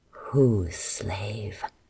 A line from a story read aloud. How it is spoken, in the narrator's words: Adara growled